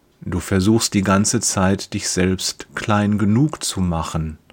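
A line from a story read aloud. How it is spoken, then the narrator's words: Gentle. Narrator (German): sagt er sanft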